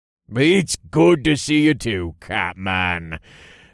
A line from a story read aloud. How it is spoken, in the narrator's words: Jax growled